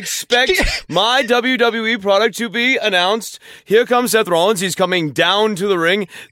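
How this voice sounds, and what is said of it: Put-on old-fashioned transatlantic accent. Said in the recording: “that weird accent that was something that actors did in the middle of the 20th century, the transcontinental accent. ... This is how actors used to talk in the 1940s and the 1950s.”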